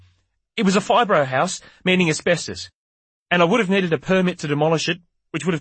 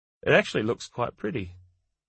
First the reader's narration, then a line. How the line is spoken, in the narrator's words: she added wistfully